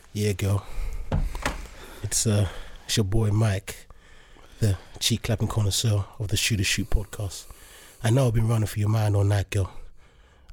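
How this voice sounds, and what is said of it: Sexy 90s R&B crooner voice. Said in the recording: “introduce themselves with a sexy voice ... I'll do it in like a 90s R&B kind of way”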